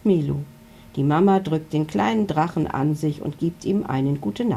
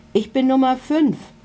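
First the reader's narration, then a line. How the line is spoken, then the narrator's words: Calling out. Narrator (German): ruft einer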